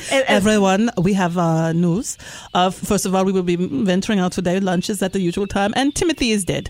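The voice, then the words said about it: Weak put-on Namibian accent. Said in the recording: “this is my lame attempt at a Namibian accent.”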